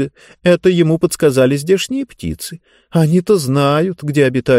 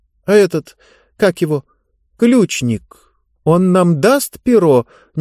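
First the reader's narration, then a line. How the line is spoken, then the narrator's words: Uncertain question. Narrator (Russian): неуверенно спросила Диба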